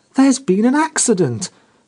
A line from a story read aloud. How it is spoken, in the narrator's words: cried Geraldine sharply